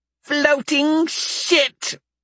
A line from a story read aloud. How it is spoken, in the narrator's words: Volo squeaked